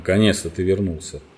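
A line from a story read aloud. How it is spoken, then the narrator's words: Grumbling. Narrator (Russian): проворчал конь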